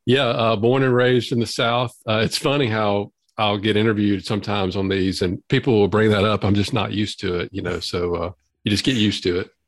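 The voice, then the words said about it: Southern drawl accent. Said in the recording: “I love that accent ... the Southern drawl ... Yep, Southern drawl.”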